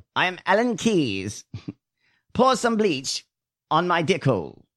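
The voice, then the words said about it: Alan Keyes impression. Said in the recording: “I did such a good Allen Keyes impersonation, the voice ... He sounded like that.”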